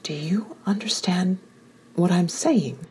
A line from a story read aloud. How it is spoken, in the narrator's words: I whispered